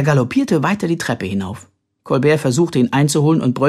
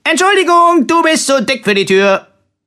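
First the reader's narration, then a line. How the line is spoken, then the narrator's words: Cheerful call. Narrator (German): rief fröhlich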